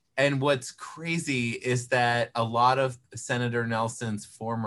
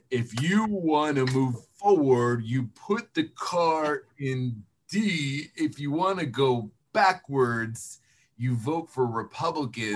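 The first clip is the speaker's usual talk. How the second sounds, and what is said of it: Imitates another person's voice. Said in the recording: “One of my more famous political impressions is of former Senator Bill Nelson ... my impression of Senator Nelson ... That was perfect.”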